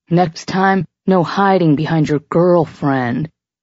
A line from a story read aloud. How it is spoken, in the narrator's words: he slurred with a lopsided smile, the alcohol clearly starting to give him a serious buzz